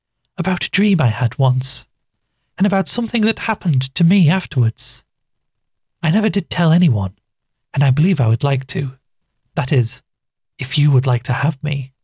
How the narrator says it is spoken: she asked, as timidly as a child afraid of giving trouble

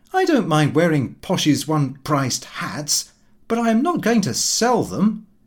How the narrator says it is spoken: Lupin went out laughing, saying

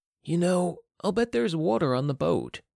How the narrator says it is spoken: sighed

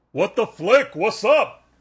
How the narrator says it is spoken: he yells

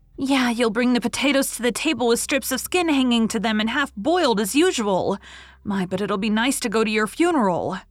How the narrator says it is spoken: shrieked Mary

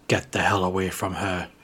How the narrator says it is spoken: I hissed the words through clenched teeth, hardly even recognising my own voice through the sheer hatred in it

